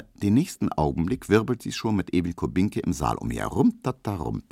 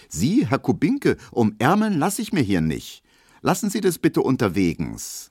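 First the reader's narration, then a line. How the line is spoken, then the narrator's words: Cold, aloof call. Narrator (German): dann wird die ganz unnahbar und ruft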